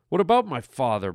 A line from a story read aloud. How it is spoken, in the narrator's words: Brett snapped